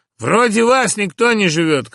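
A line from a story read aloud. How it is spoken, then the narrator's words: Boy shouting. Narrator (Russian): крикнул мальчик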